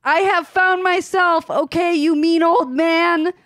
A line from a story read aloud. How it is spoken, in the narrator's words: Hagrid yelled